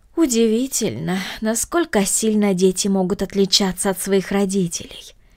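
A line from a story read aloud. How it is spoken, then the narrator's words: Regretful sigh. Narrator (Russian): вздохнула мисс Гридолин с сожалением в голосе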